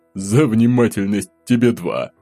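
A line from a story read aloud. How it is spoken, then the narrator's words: Added with a chuckle. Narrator (Russian): он добавил, хохотнув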